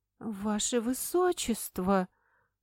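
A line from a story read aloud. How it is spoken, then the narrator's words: Confused. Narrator (Russian): Произнесла она растерянно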